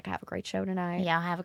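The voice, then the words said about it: Thick put-on Southern accent. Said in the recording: “Super thick Southern accent.”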